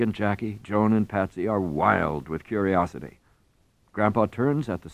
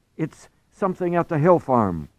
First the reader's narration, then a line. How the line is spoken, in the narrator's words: Craig cries